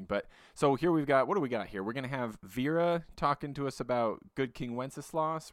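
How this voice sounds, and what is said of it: Sick-sounding voice. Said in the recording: “I'm a little sick right now. My voice is a bit annoying.”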